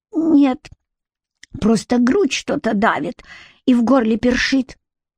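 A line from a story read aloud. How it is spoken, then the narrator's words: Weak voice, suppressed glee. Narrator (Russian): он, сдерживая ликование, ответил слабым голосом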